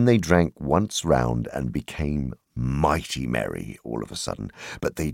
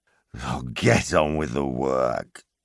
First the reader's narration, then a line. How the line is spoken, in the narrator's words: growled the butler